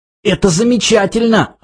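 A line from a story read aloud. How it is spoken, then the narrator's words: Wheezing. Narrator (Russian): хрипел Артур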